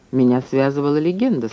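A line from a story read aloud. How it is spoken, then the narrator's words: Dry. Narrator (Russian): сказал я сухо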